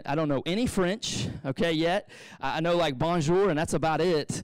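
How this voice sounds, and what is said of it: Southeast Texas accent. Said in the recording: “Southeast Texas kid with an accent.”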